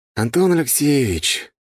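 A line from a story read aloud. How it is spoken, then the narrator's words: Drawn out, heavy sigh. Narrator (Russian): тяжело вздохнув, протянул я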